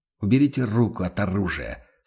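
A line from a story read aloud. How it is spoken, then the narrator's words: Calm. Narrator (Russian): спокойно произнес он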